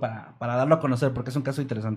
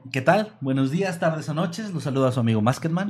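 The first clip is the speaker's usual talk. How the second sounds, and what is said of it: Radio announcer voice. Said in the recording (Spanish): “voz de locutor”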